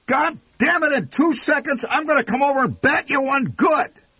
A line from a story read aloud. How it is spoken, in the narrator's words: yelled the tire repairman